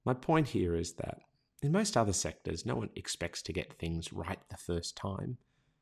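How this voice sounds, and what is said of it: Australian accent. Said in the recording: “Australian users because our accent was so hard to understand ... my own accent”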